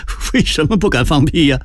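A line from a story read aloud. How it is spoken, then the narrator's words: Laughing loudly, asking. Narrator (Chinese): 明珠大笑问道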